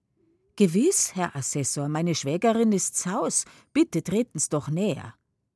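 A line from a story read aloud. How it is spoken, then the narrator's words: Loud. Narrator (German): Laut aber sagt sie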